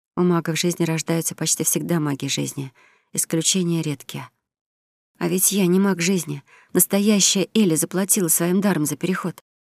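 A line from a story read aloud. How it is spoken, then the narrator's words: Whisper. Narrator (Russian): прошептала девушка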